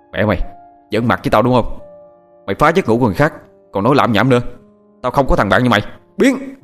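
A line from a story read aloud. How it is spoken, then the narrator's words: Angry shout. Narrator (Vietnamese): Thằng Hoàng quát lên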